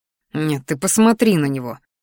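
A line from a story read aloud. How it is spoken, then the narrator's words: Inner snort. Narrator (Russian): фыркнул мысленно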